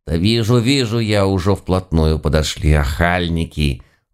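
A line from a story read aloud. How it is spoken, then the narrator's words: Grumbling. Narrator (Russian): Буркнул Яга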